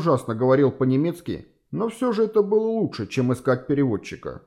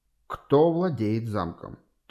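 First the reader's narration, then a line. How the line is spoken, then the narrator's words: Calm repetition. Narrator (Russian): Так же спокойно повторил он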